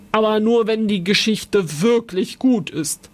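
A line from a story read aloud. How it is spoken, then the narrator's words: Old man, suspicious growl. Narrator (German): Der alte Mann knurrte misstrauisch, dann sagte er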